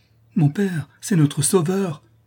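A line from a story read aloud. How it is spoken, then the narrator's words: Exclaiming. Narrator (French): s'écria Louise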